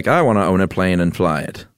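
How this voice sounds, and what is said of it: Put-on mid-Atlantic accent. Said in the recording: “that's how everybody talked that mid-Atlantic accent.”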